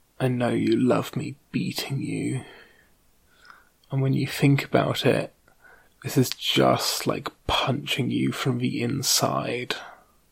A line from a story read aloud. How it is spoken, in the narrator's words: she whispers to me again